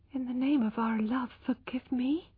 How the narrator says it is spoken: she whispered with a dry mouth

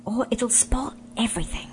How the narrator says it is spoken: whispered Scrub

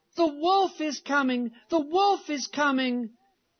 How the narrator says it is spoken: in order to have some fun, he cried out with all his might

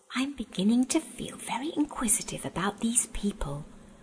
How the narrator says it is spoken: whispered Eustace to Edmund

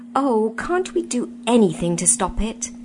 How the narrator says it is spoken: said Jill, in a shaken voice

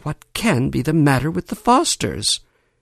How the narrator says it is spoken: Everybody was stunned and amazed, and went about muttering

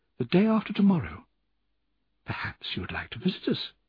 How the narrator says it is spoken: she told me quietly

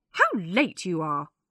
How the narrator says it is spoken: Millie said crossly

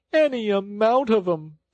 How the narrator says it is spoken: sobbed Toad

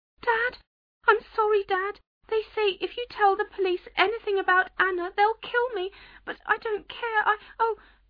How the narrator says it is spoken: Alan heard a scream, which was suddenly cut off

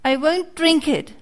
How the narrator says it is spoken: cried Pinocchio, bursting out crying

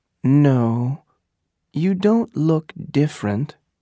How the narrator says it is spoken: she said

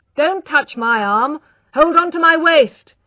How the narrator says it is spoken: he shouted

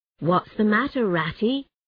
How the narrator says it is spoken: asked

